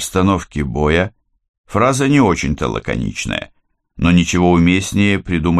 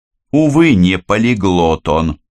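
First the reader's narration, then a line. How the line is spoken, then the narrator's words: Angry bark. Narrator (Russian): злобно гаркнул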